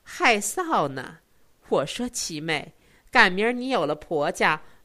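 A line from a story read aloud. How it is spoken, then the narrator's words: Giggling. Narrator (Chinese): 四奶奶咯咯笑道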